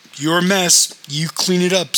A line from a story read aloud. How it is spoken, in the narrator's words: said the houseman